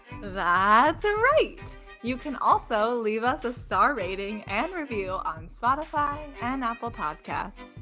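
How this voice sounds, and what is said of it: Goofy cartoon character voice. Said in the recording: “her best goofy impression, I guess, this week ... Or Tony the Tiger?”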